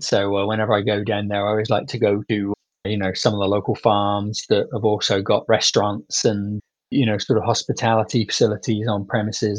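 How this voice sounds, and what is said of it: British English accent. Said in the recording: “obviously you can hear from my accent that that's where I grew up ... in the UK”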